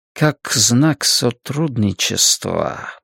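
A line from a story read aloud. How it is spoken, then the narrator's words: Muttering. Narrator (Russian): бормочет Вилли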